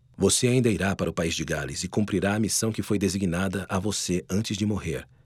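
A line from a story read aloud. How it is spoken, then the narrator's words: Whispering. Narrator (Portuguese): Joseph sussurrou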